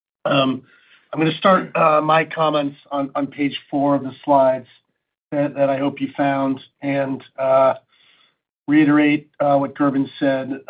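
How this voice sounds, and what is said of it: Hoarse, worn-out voice. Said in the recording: “I've been fighting a cold this week, and my voice is shot”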